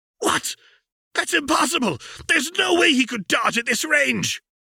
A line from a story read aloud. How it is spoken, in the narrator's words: The Ice Titan's teeth were clenched fiercely